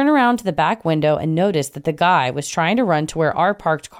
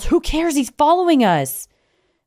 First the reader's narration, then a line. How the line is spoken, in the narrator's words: Harry yells